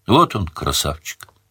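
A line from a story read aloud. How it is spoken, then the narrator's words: Quiet. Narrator (Russian): тихо сказала тетка Чари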